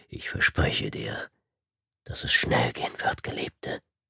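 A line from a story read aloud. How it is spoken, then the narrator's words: Whispered. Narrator (German): flüsterte er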